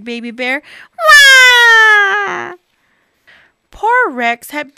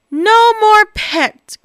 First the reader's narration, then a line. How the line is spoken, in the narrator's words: groaned Bob with a heavy sigh